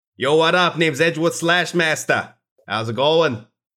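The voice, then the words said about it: Ridiculous New Yorker accent. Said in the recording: “He talks in a very ridiculous New Yorker accent.”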